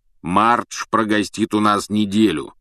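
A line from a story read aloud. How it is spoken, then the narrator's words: Deep bass voice. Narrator (Russian): пробасил дядя Вернон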